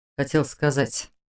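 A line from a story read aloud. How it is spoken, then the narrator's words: Quiet. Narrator (Russian): тихо начал он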